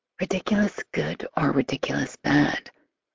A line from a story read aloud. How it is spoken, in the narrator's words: I whisper